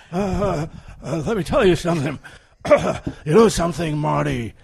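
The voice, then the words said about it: Impression of a film character's voice. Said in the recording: “you're the Doc Brown to my Marty ... I have to pull out my impression.”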